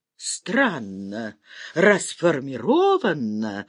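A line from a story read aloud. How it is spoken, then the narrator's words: Confused muttering. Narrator (Russian): растерянно забормотал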